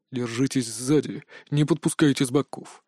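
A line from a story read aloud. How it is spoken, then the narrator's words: Hissed through teeth. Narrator (Russian): сквозь зубы прошипел Мунджин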